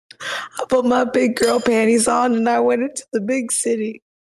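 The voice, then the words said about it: Weak, fading voice. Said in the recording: “Oh, I'm loving that voice, mate ... my voice is like weird. Like, I can get like a couple sentences out and then it starts kind of like fading ... lose their voice”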